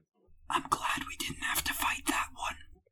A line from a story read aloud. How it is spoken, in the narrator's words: Harry whispered